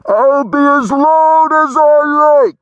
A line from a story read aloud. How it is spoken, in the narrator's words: Gary shouted